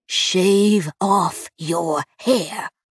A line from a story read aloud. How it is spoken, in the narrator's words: Bishop repeated, her voice hard and low